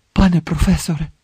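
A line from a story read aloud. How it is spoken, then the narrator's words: Tense. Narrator (Ukrainian): напруженим голосом запитав Гаррі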